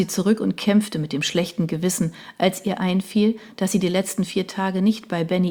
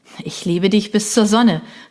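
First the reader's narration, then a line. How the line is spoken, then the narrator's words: Calling out. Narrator (German): rief Benny daraufhin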